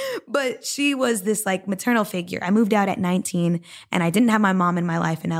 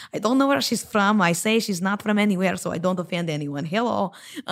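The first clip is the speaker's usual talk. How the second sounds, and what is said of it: Vague foreign accent, maternal character voice. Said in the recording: “She sounds a bit like this. ... She just picked up an accent.”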